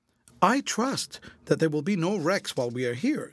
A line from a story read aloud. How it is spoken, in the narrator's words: said Esther earnestly